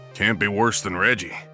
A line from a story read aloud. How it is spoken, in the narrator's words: said Larry